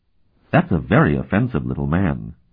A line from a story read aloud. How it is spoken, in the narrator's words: Tinian murmured to Euleth